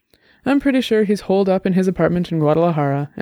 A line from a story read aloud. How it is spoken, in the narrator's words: Annabelle said